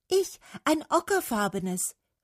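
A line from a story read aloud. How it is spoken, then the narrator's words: Called out. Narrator (German): rief die Lerche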